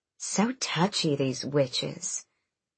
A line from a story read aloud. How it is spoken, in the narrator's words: Ansel murmured